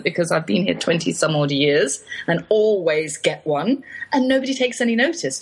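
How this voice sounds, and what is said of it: English accent. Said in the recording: “I could just sit and listen to your accent all day long. ... in England, I was waiting for a response to my accent ... I suppose everybody speaks like me in England”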